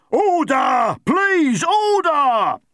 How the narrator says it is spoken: The announcer was bellowing

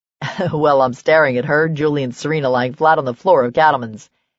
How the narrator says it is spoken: Nathan said with a chuckle

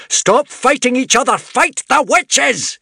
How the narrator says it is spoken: Incanzo yelled out

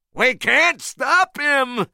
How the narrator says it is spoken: shouted one of the sailors

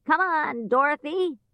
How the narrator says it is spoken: he shouted

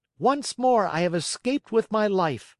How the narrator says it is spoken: nothing daunted, he jumped to his feet and cried

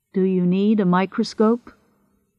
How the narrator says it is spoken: the doctor asked quietly

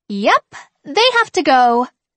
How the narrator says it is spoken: Penelope says loudly

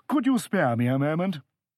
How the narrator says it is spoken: said Archie, when he'd finished panting

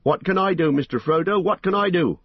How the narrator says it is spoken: shouted Sam

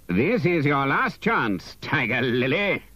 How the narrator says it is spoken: said Captain Hook with a cruel laugh

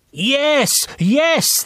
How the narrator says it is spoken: they all shouted

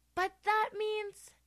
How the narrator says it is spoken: exclaimed Thomas

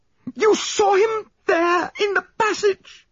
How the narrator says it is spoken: she cried

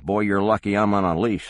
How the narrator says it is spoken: Chloe barked

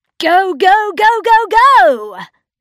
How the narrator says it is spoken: Richard's voice in my earpiece shouting

